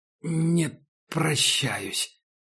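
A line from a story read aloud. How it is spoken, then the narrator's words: Forced out. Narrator (Russian): выдавил Макс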